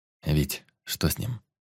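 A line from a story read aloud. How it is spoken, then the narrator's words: Quiet question. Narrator (Russian): тихо спросил историк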